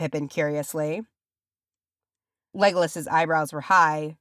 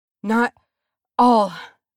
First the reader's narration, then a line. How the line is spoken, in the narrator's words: Nori panted